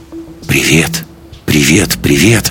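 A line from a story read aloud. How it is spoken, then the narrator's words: Matching whisper. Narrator (Russian): прошептал ей в тон Лекс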